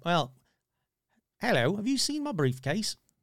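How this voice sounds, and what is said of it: Put-on accent. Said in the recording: “That's with the accent.”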